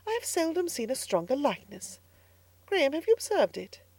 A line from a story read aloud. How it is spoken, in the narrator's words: she exclaimed presently